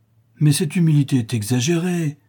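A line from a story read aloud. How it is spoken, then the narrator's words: Exclaimed, priest. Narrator (French): s'écria l'abbé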